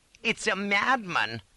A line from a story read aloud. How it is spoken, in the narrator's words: cries